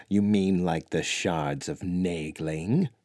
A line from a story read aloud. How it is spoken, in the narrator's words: Delvaux chuckled